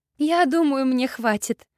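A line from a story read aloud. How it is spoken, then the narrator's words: Giggling. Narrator (Russian): хихикая под очередную тупую шутку приятеля Жанна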